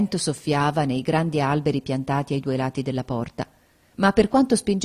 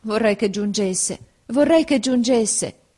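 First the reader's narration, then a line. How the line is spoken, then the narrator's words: Sad exclamation. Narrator (Italian): esclamai, presa dalla tristezza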